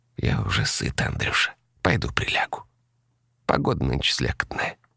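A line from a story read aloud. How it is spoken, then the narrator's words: Quiet elderly woman. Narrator (Russian): Тетя Надя тихо сказала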